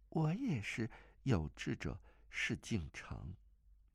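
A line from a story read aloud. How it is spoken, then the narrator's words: Woman, soft laugh, gentle. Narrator (Chinese): 那女子轻轻一笑，柔声道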